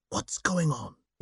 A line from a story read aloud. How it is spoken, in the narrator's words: he asked, lowering his voice to a hiss